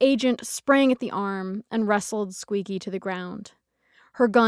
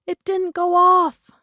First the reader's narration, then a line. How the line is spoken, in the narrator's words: she shrieked